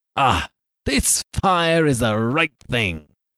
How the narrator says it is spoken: cried

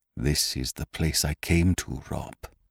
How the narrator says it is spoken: he said softly

